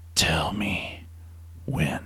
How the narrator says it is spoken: whispered to his comrade

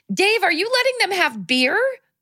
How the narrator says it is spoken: she yelled

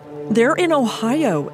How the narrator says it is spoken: Edward pleaded

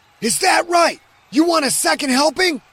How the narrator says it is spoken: He pointed right at her and screamed

